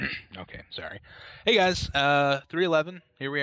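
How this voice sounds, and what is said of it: Usual voice. Nothing is said of it.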